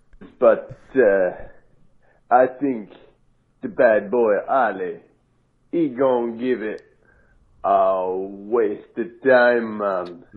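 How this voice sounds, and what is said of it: Put-on Jamaican accent, gravelly growl. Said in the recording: “Wait, is he a Jamaican New Orleans? ... I heard Jamaican and then Clint Eastwood”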